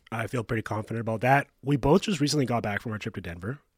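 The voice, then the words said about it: Voice still recovering from illness. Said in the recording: “can tell from my voice, I'm still recovering”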